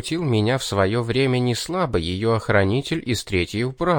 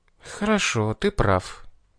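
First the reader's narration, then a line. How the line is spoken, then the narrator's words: Sighing girl. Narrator (Russian): вздохнула девушка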